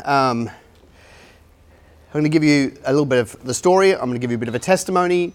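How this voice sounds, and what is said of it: Mixed English and Australian accent. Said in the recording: “You might be able to tell from my accent. I'm a hybrid. ... English by birth, but Aussie by choice.”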